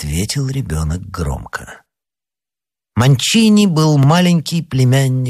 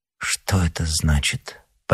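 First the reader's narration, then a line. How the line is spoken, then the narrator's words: Almost timid question. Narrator (Russian): почти робко спросила королева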